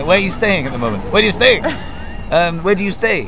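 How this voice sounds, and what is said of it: Put-on Scottish accent. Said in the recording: “Your Scottish accent's excellent.”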